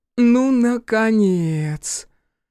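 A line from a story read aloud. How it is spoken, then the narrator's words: Drawn-out drawl. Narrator (Russian): протянула Орья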